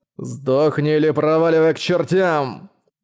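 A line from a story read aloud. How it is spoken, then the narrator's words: Growl. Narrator (Russian): прорычал Белый Лорд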